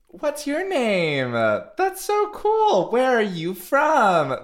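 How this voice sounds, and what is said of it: Slow, clear, authoritative children's-host voice. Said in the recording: “like my tone of voice... you have to speak very slowly and clearly and, like, assert your authority”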